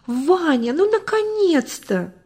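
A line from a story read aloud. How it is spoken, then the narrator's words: Glad exclamation. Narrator (Russian): Узнав его, она воскликнула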